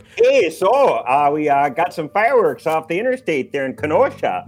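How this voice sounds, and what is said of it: Put-on northern Midwestern accent. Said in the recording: “it was with a northern accent”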